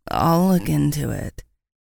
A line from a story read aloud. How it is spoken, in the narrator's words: she just muttered